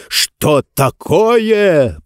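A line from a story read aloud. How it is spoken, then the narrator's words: Roaring. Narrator (Russian): проревел Нетвердайбл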